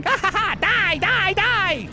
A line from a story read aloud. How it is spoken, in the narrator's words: cackling, going